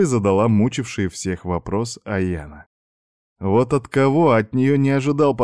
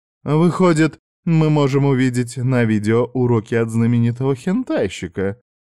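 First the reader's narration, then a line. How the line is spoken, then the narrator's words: Laughing. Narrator (Russian): смеялась Кори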